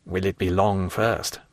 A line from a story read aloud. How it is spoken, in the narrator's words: muttered Villefort